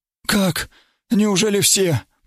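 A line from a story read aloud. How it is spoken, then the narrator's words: Moaning. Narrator (Russian): простонал второй, черненький, похожий на турка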